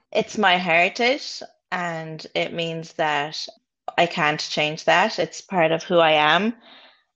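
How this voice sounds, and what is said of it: Irish accent. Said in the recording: “I've been in Ireland for over 20 years. And you can hear it in my accent probably”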